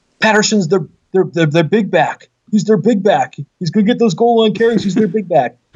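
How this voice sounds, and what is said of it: Imitates a sportscaster's voice. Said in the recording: “in my best Al Michaels voice.”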